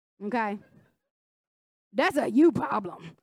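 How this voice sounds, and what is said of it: Impression of a pastor's voice. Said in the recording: “in a Pastor Earl voice ... My daughter can do Pastor Earl's voice way better than I can”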